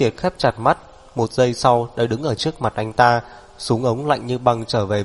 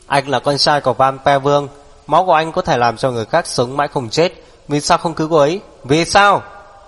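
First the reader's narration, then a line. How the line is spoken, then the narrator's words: Loud angry shout. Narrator (Vietnamese): Tề Tu lớn tiếng quát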